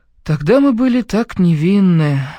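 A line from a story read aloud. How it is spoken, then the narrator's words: Sad repetition. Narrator (Russian): повторил грустно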